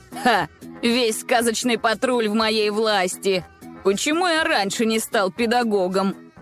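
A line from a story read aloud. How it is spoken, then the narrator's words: Laughing. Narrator (Russian): рассмеялся Влад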